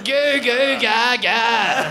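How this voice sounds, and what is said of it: Baby babbling impression. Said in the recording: “It was an impression of Cody's kid ... Fuck, so bad.”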